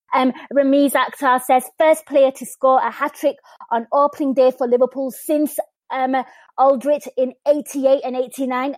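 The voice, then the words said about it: Liverpool Scouse accent. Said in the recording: “my Scally accent”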